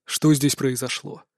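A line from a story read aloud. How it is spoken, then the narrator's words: Stern question. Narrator (Russian): Строго поинтересовался у меня Остерман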